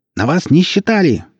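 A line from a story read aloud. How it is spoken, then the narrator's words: Shrill voice through wall. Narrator (Russian): послышался из-за стены визгливый голос Черпака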